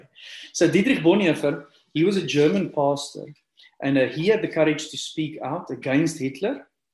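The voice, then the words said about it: Afrikaans accent. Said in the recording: “with an Afrikaans accent”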